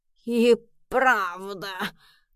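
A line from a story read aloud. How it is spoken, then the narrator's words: Trembling voice. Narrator (Russian): дрожащим голосом подхватил Эдисон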